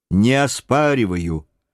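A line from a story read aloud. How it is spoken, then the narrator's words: Calm boatswain's reply. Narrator (Russian): спокойно отозвался боцман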